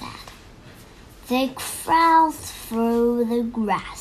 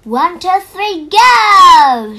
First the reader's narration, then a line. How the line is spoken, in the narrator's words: shouted Tom